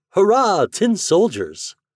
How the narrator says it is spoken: exclaimed by a little boy

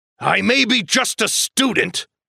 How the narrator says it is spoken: Hagrid said angrily

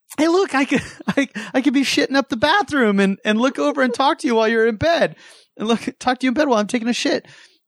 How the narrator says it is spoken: turning over and yelling at you

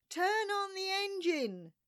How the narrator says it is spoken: screamed I

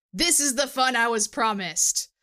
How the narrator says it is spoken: his voice boomed

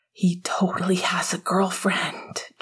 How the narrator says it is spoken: James whispered

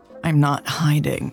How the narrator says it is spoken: Lex groaned

